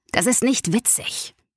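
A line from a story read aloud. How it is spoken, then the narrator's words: Growled with choppy breath. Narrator (German): knurrte Anton jetzt und stieß abgehackt die Luft aus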